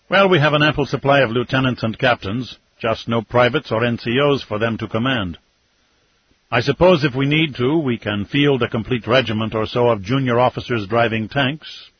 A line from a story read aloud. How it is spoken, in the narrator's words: Aliyev observed dryly